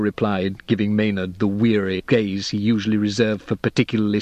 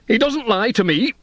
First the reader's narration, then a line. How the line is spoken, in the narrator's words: Hugo snapped